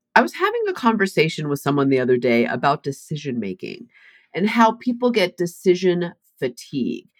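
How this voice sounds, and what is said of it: Congested, stuffed-up voice from cold. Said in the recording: “you can probably tell my voice is a little off ... I have a raging chest and head cold, so I'm all stuffed up”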